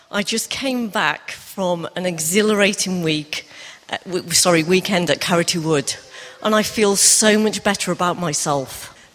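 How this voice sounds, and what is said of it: Accented speech, read slowly. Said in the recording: “she has an accent ... I have asked her to read it slowly.”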